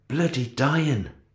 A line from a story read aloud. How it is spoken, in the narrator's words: said more softly